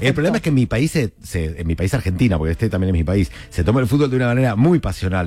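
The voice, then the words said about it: Argentine porteño accent, somewhat hybrid. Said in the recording (Spanish): “no ha perdido ni un ápice el acento porteño ... con tu acento porteño ... mi acento no era tampoco de Buenos Aires, era raro, era como de una isla del Atlántico ... Un híbrido”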